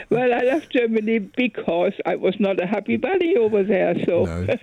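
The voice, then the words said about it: German accent. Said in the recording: “And you kept your accent, though. You kept your accent.”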